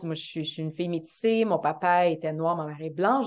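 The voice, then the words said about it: Montreal Québécois French accent. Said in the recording (French): “Montréal, j'ai cet accent-là”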